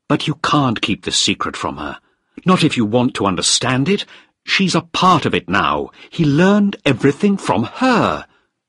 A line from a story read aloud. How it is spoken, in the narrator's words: I said angrily